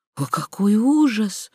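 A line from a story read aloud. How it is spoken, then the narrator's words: Frightened whisper. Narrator (Russian): прошептала госпожа Шес, бледнея при мысли о смерти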